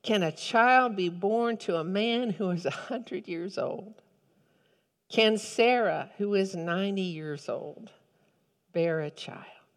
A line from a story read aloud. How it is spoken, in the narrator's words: Abraham fell on his face and laughed and said to himself